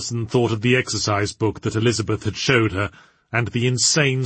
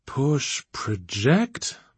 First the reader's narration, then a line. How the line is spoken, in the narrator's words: muttered Archibald